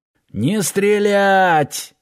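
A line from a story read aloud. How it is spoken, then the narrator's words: Yelled. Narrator (Russian): заорал Киркин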